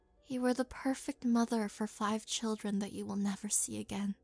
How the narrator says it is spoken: explained softly

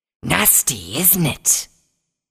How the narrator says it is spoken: the snake creature hissed

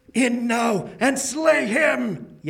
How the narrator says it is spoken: yelled Ascalante

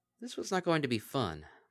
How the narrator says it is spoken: Bon Bon sighed

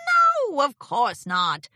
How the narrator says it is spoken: Discord scoffed

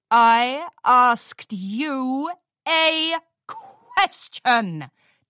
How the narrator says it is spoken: Daring bellowed, growing impatient

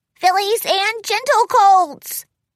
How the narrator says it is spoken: Spike shouted to the huge crowd

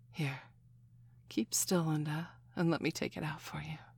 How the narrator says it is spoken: Lucy said quietly

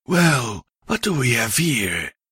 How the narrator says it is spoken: she said softly

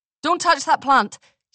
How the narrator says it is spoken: said sharply

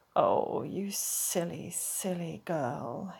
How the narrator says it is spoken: murmured

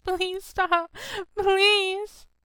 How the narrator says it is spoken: Over and over, she sobs

